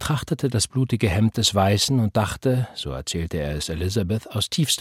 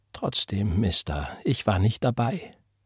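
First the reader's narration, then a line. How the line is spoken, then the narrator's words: Very quiet, defeated. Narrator (German): sagte, ganz leise, weil er wusste, dass er verloren war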